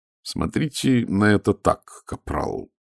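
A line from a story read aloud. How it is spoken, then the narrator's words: Very patient voice. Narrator (Russian): сказал Ваймс максимально терпеливым голосом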